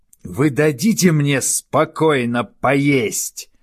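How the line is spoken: Yelling. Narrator (Russian): завопил он снова

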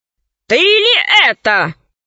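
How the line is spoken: Huge voice roaring from sky. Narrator (Russian): зарычал в небе голосище Панченги Мулити

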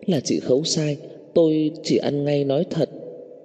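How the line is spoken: Strained, trembling voice. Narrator (Vietnamese): Cô ta dùng sức mở miệng run rẩy

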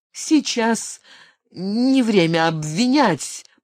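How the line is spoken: Mumbling. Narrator (Russian): промямлил Мортон

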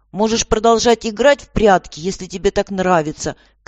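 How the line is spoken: Shout, woman. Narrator (Russian): крикнула

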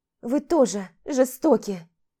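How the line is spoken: Sobbing. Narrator (Russian): всхлипнула Тома

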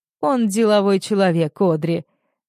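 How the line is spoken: Calm objection. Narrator (Russian): спокойно возражает отец

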